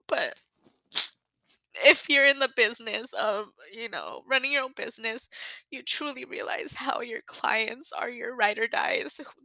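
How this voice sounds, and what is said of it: Emotional, choked-up voice. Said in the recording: “I'm sorry I get emotional ... just gets me really emotional”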